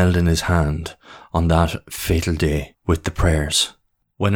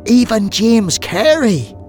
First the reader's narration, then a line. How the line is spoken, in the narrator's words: She pleaded again